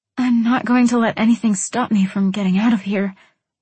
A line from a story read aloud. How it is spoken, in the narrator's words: I breathed